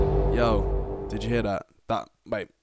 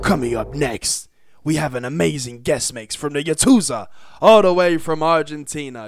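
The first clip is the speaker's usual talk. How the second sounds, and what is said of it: Put-on serious announcer voice. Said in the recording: “let me put my serious voice on”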